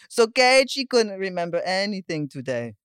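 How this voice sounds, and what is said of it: Poor imitation of a specific accent. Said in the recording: “Now that sounds... that wasn't good either... It's very specific, her accent.”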